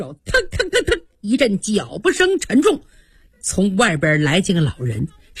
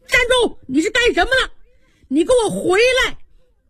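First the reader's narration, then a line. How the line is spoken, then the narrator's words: Shouting. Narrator (Chinese): 外边喊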